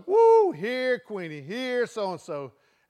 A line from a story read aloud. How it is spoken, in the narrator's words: hollering